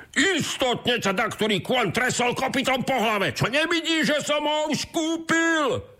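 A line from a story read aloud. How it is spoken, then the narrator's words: Shouted. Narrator (Slovak): zakričal druhý boháč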